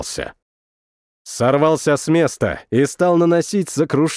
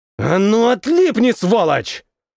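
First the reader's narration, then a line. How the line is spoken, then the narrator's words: Barked loudly. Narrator (Russian): рявкнул я, забыв об окружающей меня тишине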